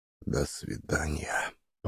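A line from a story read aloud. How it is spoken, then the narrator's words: Whisper. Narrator (Russian): прошептал он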